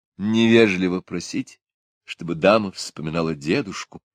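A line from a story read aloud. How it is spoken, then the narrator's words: Sad smiling speech. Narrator (Russian): сказала леди Джоан, печально улыбаясь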